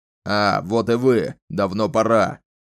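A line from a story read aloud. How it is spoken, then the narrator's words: Irritated bark. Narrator (Russian): Раздраженно рявкнул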